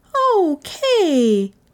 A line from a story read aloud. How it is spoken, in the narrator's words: Jinshin cried